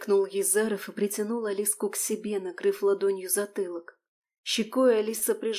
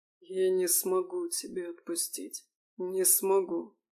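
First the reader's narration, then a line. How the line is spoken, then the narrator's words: Hoarse mutter. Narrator (Russian): сипло бормотал Елисей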